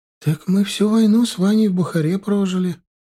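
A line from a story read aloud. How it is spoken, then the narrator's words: Sad, smiling. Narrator (Russian): грустно улыбнулась она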